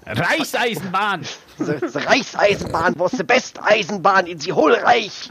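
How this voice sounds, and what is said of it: Exaggerated German accent in English. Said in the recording (German): “diesen übertriebenen Nazi-Akzent ... so der typische Deutsche”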